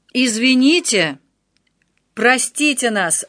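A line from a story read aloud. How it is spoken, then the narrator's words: Loud shout over chaos. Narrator (Russian): прокричал Отто так, что в шуме возникшего в кафе хаоса его услышал каждый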